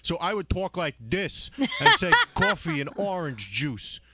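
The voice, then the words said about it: Strong Long Island accent. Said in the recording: “I used to have a terrible, terrible accent when I first started on the radio ... He was so Long Island.”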